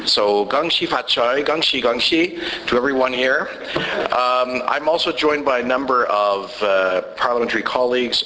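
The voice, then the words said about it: Hoarse, strained voice. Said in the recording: “sorry for my voice. I lost it this weekend”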